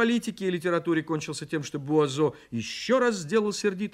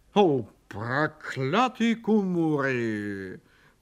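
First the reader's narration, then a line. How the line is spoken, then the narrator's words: Grumbled. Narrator (Russian): проворчал он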